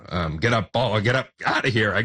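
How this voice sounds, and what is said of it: Imitates a baseball broadcaster's call. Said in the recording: “doing my best Buck impression.”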